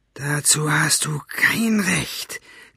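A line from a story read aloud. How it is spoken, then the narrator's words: Hissed. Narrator (German): zischte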